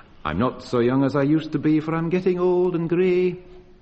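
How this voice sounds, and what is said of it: Put-on accent singing a line. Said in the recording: “Notice that rather fine accent.”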